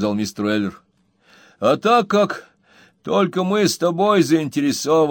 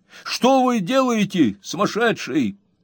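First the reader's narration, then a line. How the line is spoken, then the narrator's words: Shouting. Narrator (Russian): закричал Сэм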